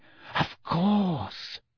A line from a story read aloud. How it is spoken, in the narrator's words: she breathed